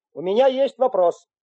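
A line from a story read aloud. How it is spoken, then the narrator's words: Loud. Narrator (Russian): громко сказал Потапов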